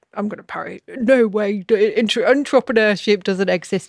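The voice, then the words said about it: Imitates another person's voice. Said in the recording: “Do you like that accent? ... Is that an impression of me? ... I'm really good at accents.”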